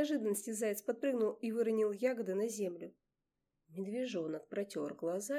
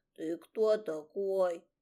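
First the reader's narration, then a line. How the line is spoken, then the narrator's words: Bear cub growling again. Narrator (Russian): Снова прорычал медвежонок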